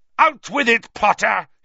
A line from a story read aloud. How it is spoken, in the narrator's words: he bellowed